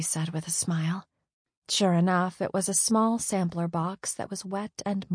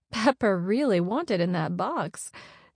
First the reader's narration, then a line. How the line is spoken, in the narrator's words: said with a laugh